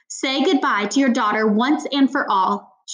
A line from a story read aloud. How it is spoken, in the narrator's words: spat